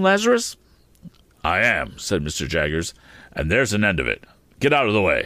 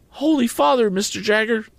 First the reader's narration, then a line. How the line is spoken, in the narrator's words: cried my excitable acquaintance